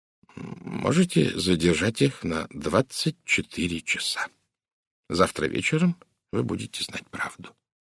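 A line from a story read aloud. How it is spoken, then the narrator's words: Quiet. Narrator (Russian): тихо сказал Пуаро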